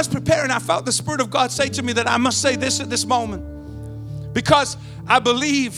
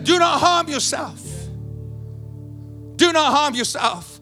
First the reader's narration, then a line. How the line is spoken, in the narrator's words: Paul cried out to the jailer and he said